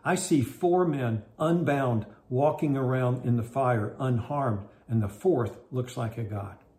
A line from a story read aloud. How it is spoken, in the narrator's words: Nebuchadnezzar shouted